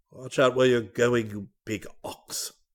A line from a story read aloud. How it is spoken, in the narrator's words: he exclaimed